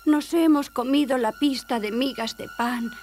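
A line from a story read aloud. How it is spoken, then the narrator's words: Sad singing. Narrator (Spanish): cantaban tristemente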